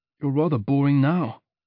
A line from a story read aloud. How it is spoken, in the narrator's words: I muttered, perhaps a tinsy bit louder than I meant to